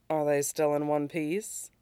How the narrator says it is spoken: She asks dryly

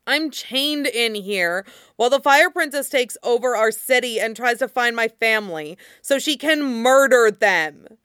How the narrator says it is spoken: Mean snarled

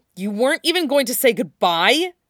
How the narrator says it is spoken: Gendry asked angrily

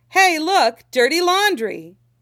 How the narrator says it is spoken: like shouting

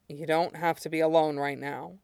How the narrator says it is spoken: Aizawa said quietly

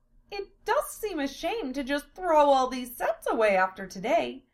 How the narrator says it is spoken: Amelia said wistfully

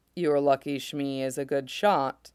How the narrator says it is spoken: Mace says dryly

